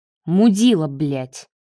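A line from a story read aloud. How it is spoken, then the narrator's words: Grumbling. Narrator (Russian): проворчал Марат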